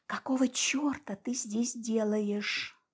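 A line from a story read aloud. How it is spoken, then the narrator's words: Silently mouthed question. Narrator (Russian): спросила я его тихо одними губами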